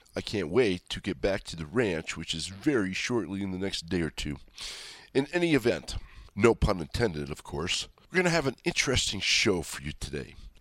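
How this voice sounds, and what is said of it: Stuffy, congested voice. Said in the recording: “I sound a little stuffy,⟧ it's because I am a little stuffy. A little bit of cold and a little bit of hack”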